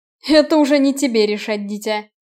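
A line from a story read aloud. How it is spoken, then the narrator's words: Nervous laughing. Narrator (Russian): нервно рассмеялся Оливер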